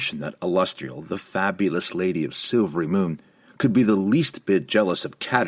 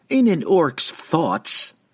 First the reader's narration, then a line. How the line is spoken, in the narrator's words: Caterbury blurted, unable to stop herself